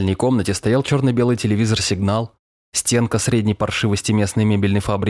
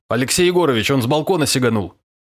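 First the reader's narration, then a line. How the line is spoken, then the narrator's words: Aggrieved shout. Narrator (Russian): С какой-то обидой выкрикнул Островой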